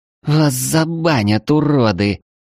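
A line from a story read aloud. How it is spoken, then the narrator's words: Moaning. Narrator (Russian): простонала эльфийка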